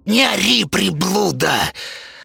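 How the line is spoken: Hissed. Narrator (Russian): прошипела Зинаида Петровна

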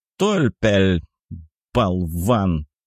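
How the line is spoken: Hissed. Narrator (Russian): прошипел Кисель

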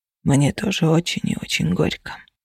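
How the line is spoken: Whisper. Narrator (Russian): прошептал Феникс

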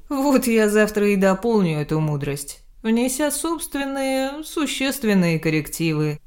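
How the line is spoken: Laughing. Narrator (Russian): рассмеялся Грех

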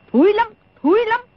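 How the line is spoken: Angry interruption. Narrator (Vietnamese): Đồng Mổ tức giận ngắt lời

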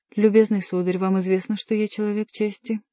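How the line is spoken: Thoughtful. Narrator (Russian): после секундного размышления сказал

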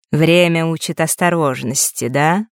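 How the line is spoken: Woman's wry snort. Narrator (Russian): Незнакомка хмыкнула

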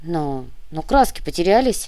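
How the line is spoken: Muttered at last. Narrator (Russian): пробурчал он наконец

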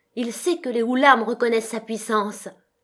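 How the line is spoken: Shouting again. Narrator (French): Il cria encore

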